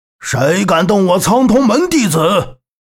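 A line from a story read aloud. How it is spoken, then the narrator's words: Thunderous booming voice. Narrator (Chinese): 声音如同震雷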